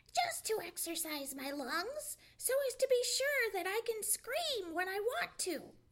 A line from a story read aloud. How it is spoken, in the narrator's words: replied Sammy, screaming still louder